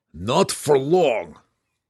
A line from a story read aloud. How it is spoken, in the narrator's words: growled Belwar